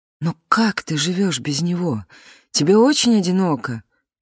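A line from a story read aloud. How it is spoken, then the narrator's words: Tense voice. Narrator (Russian): напряженным голосом спросила Клара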